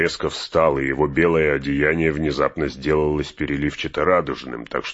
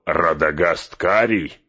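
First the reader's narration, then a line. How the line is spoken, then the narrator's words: Laughing, contemptuous interruption. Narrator (Russian): с хохотом перебил меня Саруман, и его презрение прорвалось наружу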